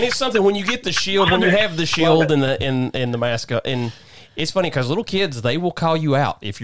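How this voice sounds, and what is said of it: Usual voice. Nothing is said of it.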